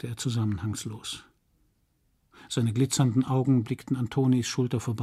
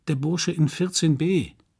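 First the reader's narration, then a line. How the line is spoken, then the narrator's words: Plain. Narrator (German): sagte der Portier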